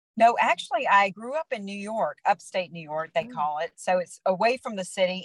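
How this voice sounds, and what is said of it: American accent. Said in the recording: “that American accent”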